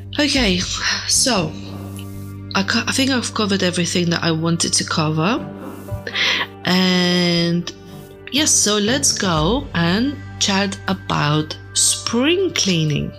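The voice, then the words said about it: Non-native English accent. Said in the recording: “I live in England, but I'm not English. I don't have this beautiful English accent”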